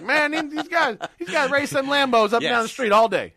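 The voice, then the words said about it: Put-on Southern accent. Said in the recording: “what kind of accent did you just do there? ... He was a bit of a southern accent”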